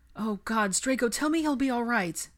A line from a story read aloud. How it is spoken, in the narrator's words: Pansy pleaded